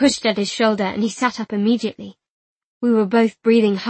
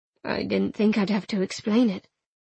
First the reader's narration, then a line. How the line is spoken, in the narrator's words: he murmured